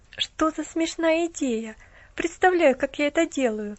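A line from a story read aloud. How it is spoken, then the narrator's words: Laughing. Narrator (Russian): засмеялась девушка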